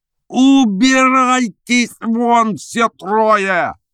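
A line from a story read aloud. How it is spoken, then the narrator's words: Yelling. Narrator (Russian): завопил адвокат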